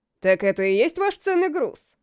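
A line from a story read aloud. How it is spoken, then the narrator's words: Chuckling. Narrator (Russian): хохотнул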